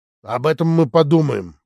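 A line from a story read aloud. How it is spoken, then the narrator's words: Grumbled. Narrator (Russian): проворчал Щечкин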